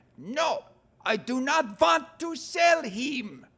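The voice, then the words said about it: Bad put-on accent. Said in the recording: “the horrible accent ... that is a bad accent”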